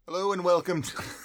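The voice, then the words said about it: Put-on British accent. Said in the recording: “Did I have a British accent? ... Yeah.”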